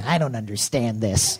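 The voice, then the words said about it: Imitates another person's voice. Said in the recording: “That's my Gordon Gekko impression”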